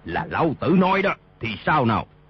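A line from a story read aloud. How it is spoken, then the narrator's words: Loud raised shout. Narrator (Vietnamese): Y cao giọng quát lên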